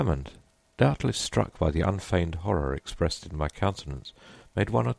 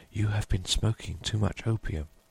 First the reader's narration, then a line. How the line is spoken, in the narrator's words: whispered Hammond